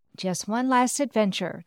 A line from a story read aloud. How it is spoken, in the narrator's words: the wizard Linda sighed